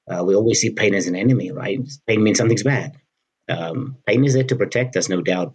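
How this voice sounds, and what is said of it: Speaker with a funny accent. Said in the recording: “The guy with the funny accent”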